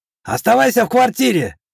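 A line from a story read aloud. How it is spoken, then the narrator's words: Shouted. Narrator (Russian): крикнул бывший чекист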